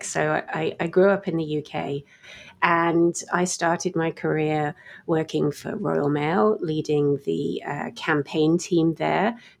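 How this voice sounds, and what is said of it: Mixed British accent. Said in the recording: “you can probably tell from my somewhat mutated accent that I originated on the other side of the Atlantic”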